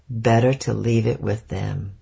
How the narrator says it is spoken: said slowly, drawing out the sound with each syllable in a tone that he knew I was up to something

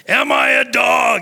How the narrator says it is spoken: he roared at David

